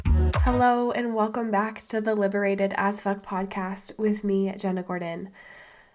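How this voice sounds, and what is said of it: Sounds ill. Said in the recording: “tell from my voice, I am feeling under the weather”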